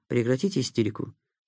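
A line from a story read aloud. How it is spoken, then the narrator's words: Quiet. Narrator (Russian): проговорил Никита тихо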